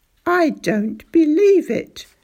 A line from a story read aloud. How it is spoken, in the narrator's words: he cried